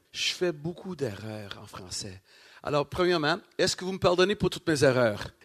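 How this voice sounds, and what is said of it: Non-native broken French accent. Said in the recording (French): “mon accent cassé”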